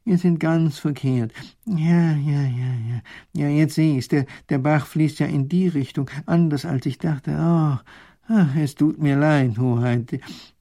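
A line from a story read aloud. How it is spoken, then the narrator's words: Groaning. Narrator (German): stöhnt der Professor auf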